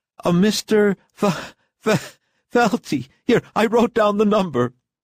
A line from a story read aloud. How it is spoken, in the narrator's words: the maid had laughingly informed her